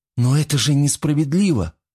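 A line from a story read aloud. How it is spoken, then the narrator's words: Young woman's exclamation. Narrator (Russian): воскликнула девушка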